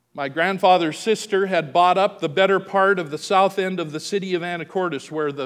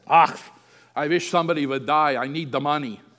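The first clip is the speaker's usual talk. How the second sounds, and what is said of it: Heavy German accent. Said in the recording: “in her heavy German accent.”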